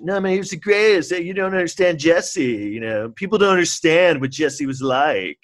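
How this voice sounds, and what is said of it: Imitates a TV kid character's voice. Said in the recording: “my Bobby Brady impression.”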